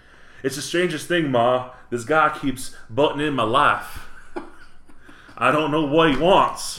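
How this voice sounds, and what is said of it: Well-practiced put-on accent. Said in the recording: “That's a good accent. ... You've been working on this in the mirror”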